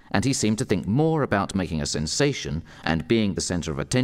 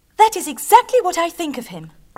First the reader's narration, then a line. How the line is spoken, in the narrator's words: cried Marianne, immediately agreeing with her hero